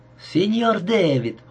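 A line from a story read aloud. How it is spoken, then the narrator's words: Beaming exclamation. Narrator (Russian): воскликнул он, сияя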